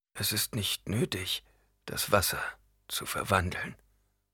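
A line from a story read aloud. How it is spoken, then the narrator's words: Weak voice. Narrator (German): sagte mit schwacher Stimme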